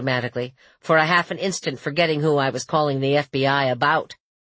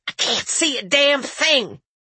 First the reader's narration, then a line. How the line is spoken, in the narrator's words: set my palm down on the blade of a rusty screwdriver and hissed